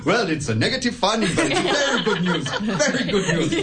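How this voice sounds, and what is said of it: Put-on Finnish accent. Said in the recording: “Finish that accent. ... That was a fantastic Finnish accent.”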